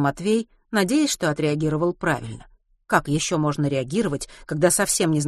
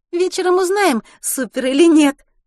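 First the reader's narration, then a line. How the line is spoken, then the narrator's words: Laughing. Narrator (Russian): засмеялась та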